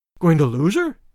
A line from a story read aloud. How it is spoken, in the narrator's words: exclaimed Tarzan